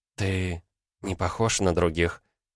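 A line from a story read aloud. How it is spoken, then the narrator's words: Whisper. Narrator (Russian): прошептала она позже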